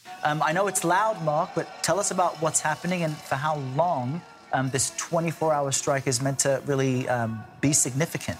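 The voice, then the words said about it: British accent. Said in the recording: “news host with a British accent”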